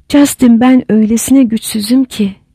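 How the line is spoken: Plain. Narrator (Turkish): dedi

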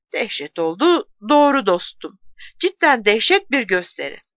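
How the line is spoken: Man laughing. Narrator (Turkish): Beyaz ceket heriflerden biri gülerek dedi ki

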